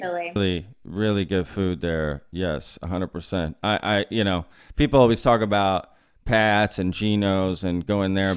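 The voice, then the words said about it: Slight mid-Atlantic American accent. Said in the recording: “You have a bit of a mid-Atlantic accent ... you got a little bit of that accent”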